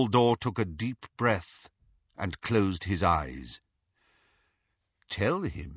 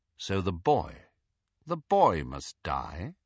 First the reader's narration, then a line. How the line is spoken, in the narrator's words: asked Snape, quite calmly